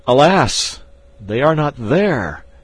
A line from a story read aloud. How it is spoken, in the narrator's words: I cried